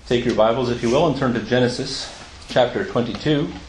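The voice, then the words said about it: American accent. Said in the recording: “with my accent from the United States”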